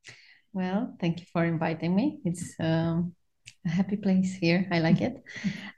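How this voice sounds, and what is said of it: Speaks with an accent. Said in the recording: “she has an accent”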